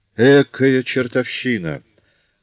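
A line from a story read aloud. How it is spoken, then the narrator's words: Through gritted teeth. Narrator (Russian): процедил сквозь зубы Жавер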